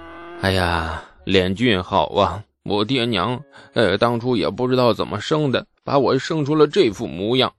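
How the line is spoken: Dejected sighing. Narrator (Chinese): 王家兄弟分外的沮丧，唉声叹气

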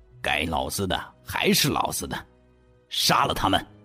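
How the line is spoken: Cold sneer through teeth. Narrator (Chinese): 李书俊咬牙切齿的……冷笑道

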